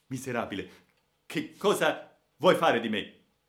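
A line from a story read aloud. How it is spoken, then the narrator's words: Shouted by a young man. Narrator (Italian): gridò il povero giovane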